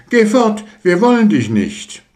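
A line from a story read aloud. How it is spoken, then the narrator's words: Called out. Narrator (German): sie rief zu ihm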